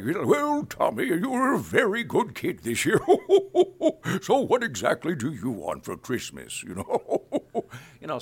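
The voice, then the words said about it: Santa Claus character voice. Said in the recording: “doing Santa Claus ... character voice”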